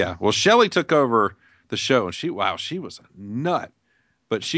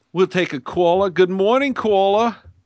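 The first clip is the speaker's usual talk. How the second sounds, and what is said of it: Georgia accent, imitates another person's voice. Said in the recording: “that's a Georgia accent”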